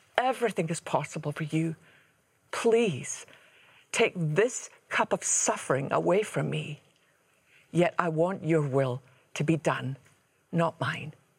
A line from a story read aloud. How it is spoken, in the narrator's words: he cried out